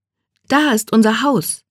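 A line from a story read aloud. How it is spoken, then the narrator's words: Calling out. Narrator (German): rief Johnny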